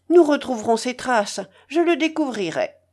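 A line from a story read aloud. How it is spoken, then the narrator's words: Energetic shout. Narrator (French): cria énergiquement Razoumikine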